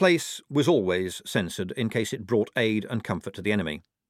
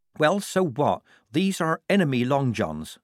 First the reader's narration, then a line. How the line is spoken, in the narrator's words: said Polly